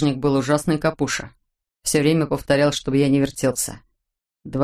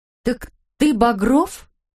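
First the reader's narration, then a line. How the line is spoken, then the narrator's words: Excited, agitated question. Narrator (Russian): взволнованно спросила Ирка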